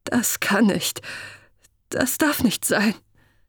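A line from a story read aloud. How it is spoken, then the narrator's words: Stammering. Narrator (German): stammelte er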